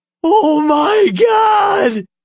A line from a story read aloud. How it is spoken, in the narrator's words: Nathan screamed